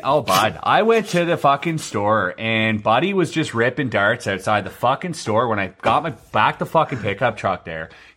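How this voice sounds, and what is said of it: Exaggerated Canadian hoser accent. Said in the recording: “they're like straight fucking hosers ... that's how they talk ... a Canadian accent”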